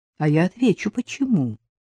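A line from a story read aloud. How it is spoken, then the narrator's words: Grumbled. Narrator (Russian): буркнул Дедков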